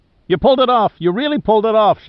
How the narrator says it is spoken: shouted Giordino as though he didn't believe his eyes

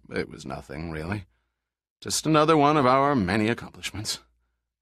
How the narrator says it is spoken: grinned and said dryly

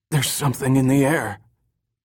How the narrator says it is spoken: Gasping in a hoarse voice, whispered

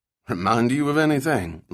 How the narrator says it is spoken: Link asked with a dry chuckle

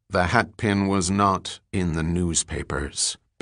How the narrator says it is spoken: Bell said coldly

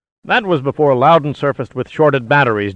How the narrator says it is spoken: Giordino snapped back resentfully

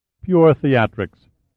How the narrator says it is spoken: laughed

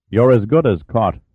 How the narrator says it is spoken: said Velikov

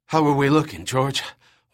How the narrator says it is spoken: Juan panted

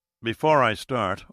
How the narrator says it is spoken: Austin said evenly

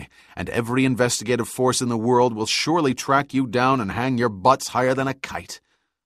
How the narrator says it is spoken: said Birch angrily

